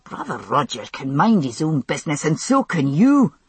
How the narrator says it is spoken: he said, through his teeth, struggling back up

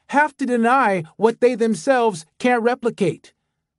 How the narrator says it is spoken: the young man half shouted

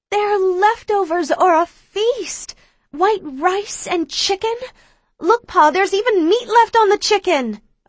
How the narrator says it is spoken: I yell excitedly

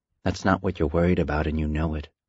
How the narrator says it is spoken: her inner voice murmured

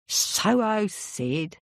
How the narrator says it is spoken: scoffed Cole

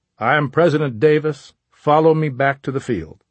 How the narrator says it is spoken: cried to the crowd of soldiers

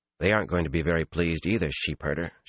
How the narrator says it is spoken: she said dryly

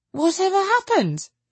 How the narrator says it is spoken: cried Lucy

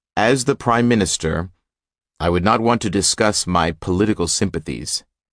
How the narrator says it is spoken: he said

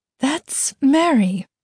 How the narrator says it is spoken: mother said, her voice shaking

